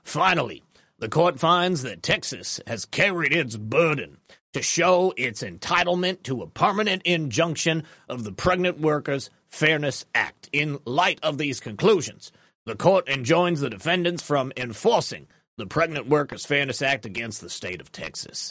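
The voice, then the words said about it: Put-on southern accent, older man. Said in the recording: “I'm just doing a southern accent. ... I'm imagining that he's an older gentleman. Maybe he's a cigar smoker, but not quite a Colonel Sanders. If it was a Colonel Sanders, it would have been a little bit more sing-songy.”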